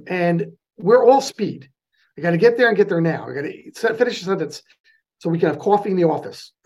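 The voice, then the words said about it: New York accent, fast speech. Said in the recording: “there's my new york accent ... i speak a little quickly for california”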